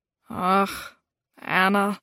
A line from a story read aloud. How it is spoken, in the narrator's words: said with a sigh